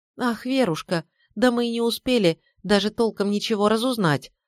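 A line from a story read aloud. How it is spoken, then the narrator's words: Upset exclamation. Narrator (Russian): огорченно воскликнула она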